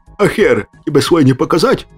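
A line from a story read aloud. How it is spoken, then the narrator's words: Snapped back. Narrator (Russian): Огрызнулся я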